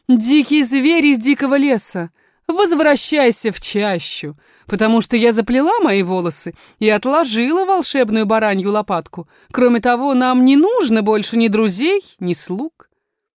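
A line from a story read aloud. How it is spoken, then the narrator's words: Laughing reply. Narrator (Russian): Женщина засмеялась и ответила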